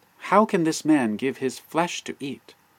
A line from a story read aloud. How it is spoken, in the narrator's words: exclaimed